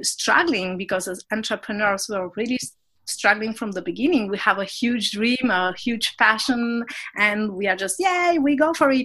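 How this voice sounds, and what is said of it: Non-native English, French-speaking accent. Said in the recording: “my accent tells you that I'm not an English speaker... I'm in a French-speaking town in Geneva”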